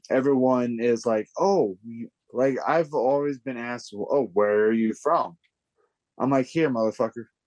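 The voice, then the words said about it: Slurred speech from speech impediment. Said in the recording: “I have a slur ... You're slurring your words. I'm like, bitch, it's speech impediment. I know I'm slurring my words.”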